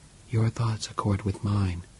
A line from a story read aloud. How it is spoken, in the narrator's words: whispered George 10